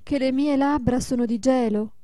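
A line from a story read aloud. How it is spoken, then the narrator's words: Mother exclaiming. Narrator (Italian): esclamò la madre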